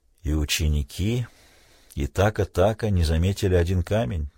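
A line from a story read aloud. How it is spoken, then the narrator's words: Quiet. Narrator (Russian): тихо сказал Тунгата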